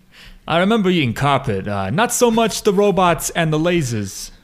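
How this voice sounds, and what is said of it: Impression of Carl, New Jersey accent. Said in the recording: “Good impression. ... I'm from New Jersey. ... Carl's from the Jersey Shore.”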